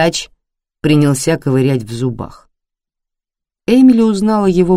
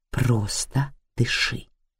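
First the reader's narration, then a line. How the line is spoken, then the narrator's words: Self-command. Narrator (Russian): приказав себе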